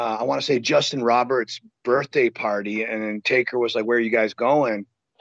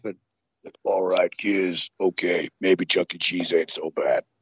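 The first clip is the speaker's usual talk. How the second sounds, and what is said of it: Poor Undertaker impression. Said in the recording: “my really crappy Undertaker impersonation”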